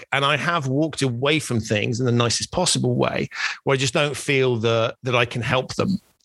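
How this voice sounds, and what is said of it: British accent. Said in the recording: “You have to want to hear the British accent.”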